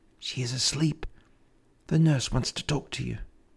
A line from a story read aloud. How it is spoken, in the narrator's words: his daughter, Kate, whispered quietly in his ear